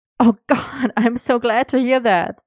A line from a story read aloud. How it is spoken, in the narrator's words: Merlin laughed